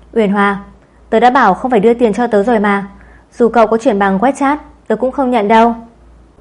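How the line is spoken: Angry. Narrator (Vietnamese): Tăng Đình Đình tức giận nói

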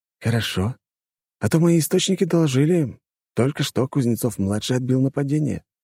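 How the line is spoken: Calm statement. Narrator (Russian): также спокойно заявил звонивший

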